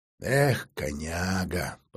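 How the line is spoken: Whispering to himself. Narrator (Russian): прошептал про себя мастер

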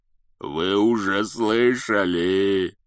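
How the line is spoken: Growl. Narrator (Russian): прорычал Хагрид

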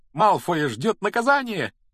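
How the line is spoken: Joyful shout. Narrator (Russian): радостно выкрикнула она

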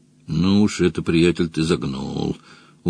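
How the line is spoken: Sullen mutter. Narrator (Russian): угрюмо пробормотал Мадж

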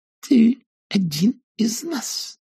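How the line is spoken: Hissed through teeth. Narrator (Russian): прошипела война сквозь зубы

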